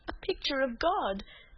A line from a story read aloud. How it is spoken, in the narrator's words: said Cecily with a sob in her voice